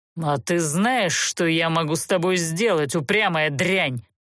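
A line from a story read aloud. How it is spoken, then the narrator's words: Menacing growl. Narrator (Russian): угрожающе рыкнул стражник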